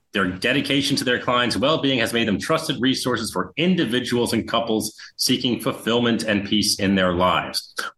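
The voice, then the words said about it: Polished radio-announcer style voice. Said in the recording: “He has a radio voice.”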